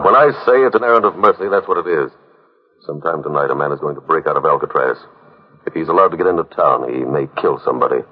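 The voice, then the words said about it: Slow Irish brogue. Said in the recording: “You got a slow brogue.”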